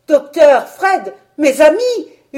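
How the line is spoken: Desperate screaming. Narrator (French): hurlai-je désespérément

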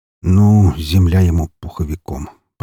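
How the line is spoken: Muttered. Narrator (Russian): пробормотал я

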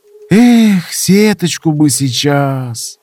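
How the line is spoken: Sighing. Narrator (Russian): Вздохнул Винт

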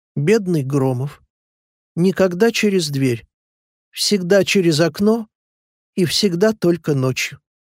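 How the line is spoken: Heavy sigh, plaintive speech. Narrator (Russian): тяжело вздохнул и жалобно проговорил

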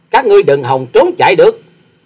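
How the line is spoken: Angry snort, loud shout. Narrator (Vietnamese): quái nhân áo xanh sắc mặt đang giận dữ hừ lạc một tiếng già quát to

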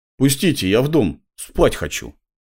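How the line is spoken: Snapping retort. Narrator (Russian): огрызнулся

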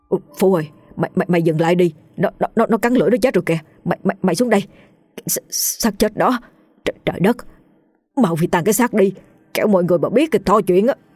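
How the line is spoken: Terrified stammering. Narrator (Vietnamese): Tên Tùng run lẩy bẩy, miệng lắp bắp, sợ hãi nói

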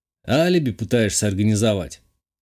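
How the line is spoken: Wry snort. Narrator (Russian): хмыкнул я

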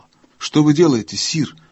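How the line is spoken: Sharp question. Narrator (Russian): резко спросила Джил

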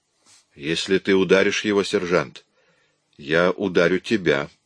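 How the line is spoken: Quiet. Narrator (Russian): тихо произнес Коллан

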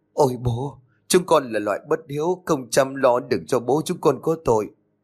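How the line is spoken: Trembling tearful voice. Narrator (Vietnamese): cả bà đứa đều run rẩy, nước mắt lưng tròng mà nói

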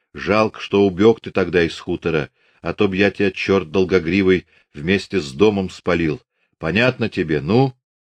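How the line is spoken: Stern. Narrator (Russian): тот строго сказал

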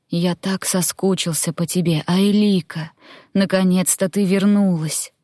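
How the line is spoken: Man whispering. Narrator (Russian): мужчина прошептал

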